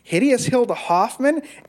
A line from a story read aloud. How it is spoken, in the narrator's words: Eric laughed